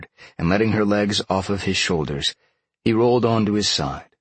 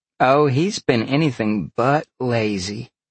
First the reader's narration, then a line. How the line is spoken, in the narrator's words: Dalen laughed